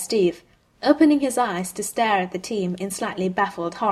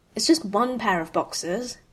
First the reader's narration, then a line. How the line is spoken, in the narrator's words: Clint mutters